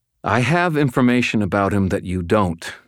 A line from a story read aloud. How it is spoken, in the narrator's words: I said